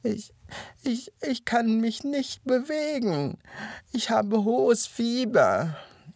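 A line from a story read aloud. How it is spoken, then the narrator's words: Whining through gritted teeth. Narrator (German): jammerte der Hase zähneknirschend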